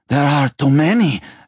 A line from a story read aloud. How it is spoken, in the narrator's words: Aspitus cried